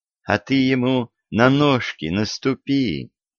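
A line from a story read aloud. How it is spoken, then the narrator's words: Tender advice from girl. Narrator (Russian): ласково посоветовала девушка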